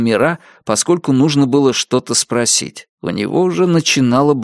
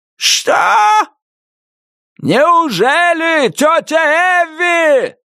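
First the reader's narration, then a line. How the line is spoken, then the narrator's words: Furious spluttering yell. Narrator (Russian): заорал Джордж Мира, брызнув слюной в лицо старухи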